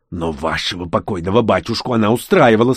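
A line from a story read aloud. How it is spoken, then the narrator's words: Hissing. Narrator (Russian): снова прошипел он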